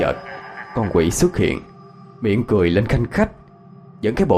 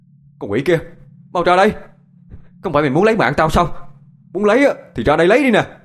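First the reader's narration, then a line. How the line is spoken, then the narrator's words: Loud shout. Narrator (Vietnamese): Anh hét to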